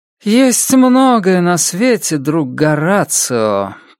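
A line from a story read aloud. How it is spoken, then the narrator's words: Drawled. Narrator (Russian): протянула Роуэн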